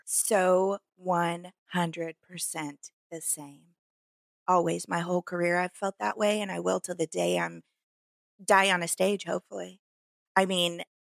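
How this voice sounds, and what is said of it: Rural American accent. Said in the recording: “my accent ... this hick mouth”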